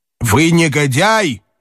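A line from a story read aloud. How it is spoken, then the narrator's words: Shout in German. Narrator (Russian): крикнул по-немецки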